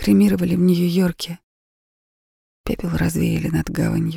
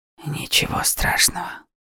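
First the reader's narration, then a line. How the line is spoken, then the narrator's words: Quiet reply. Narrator (Russian): тихо ответил он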